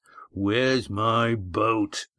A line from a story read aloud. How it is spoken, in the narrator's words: growled Red Ian